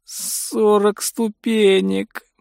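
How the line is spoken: Groan. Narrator (Russian): простонал он

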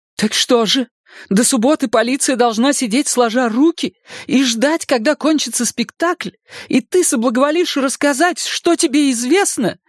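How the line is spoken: Desperate exclamation. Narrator (Russian): в отчаянии воскликнула Шарлотта

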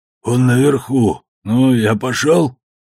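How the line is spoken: Slightly wheezing. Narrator (Russian): Он еще похрипывал, но уже гораздо меньше

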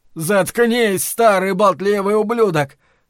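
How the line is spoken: Shouting. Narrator (Russian): прокричал Ллойд

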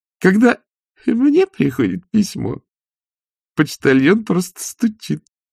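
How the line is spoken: Giggling ballerina. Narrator (Russian): хихикнула одна из балерин

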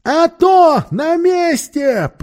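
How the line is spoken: Roared. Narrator (Russian): проревел Пью

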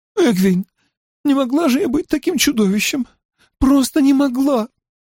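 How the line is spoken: Tearful sobbing. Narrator (Russian): Сквозь слезы она произнесла, всхлипывая

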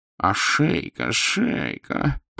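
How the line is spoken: Moaning. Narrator (Russian): простонал морской агент

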